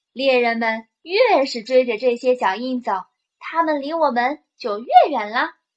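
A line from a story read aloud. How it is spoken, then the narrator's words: Laughing. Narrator (Chinese): 艾玛笑着说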